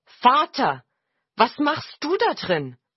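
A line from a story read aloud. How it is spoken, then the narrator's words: Calling. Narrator (German): rief er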